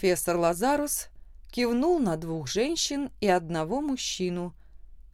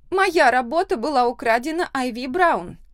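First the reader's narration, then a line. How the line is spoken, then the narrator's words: Loud declaration. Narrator (Russian): громко заявила Люсиль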